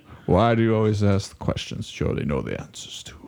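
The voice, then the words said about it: Ian McKellen impression. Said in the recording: “I can't do an Ian McKellen impression, but I can say that one line just like Ian McKellen”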